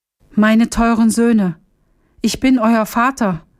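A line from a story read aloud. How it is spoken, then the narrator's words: Called out. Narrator (German): rief Hamdam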